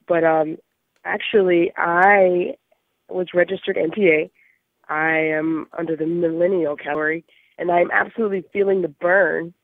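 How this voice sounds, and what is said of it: Hoarse voice. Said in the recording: “I'm really hoarse.”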